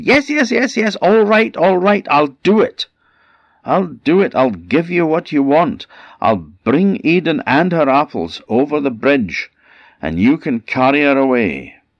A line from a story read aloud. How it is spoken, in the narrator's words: Loki kept screaming, and eventually he said